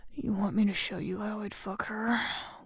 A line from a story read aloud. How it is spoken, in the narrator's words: Will growled, menacingly